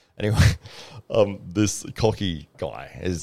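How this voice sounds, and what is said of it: Usual voice. Nothing is said of it.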